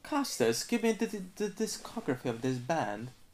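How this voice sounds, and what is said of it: Attempted British accent. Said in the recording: “This is not a British accent.”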